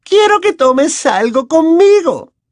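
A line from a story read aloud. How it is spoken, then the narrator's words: Dangerously sweet insistence. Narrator (Spanish): insistió la profesora con una voz peligrosamente dulce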